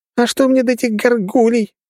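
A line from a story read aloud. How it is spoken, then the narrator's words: Shrill woman. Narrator (Russian): визгливым тоном ответила женщина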